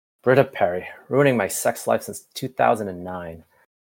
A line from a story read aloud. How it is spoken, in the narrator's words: Jeff muttered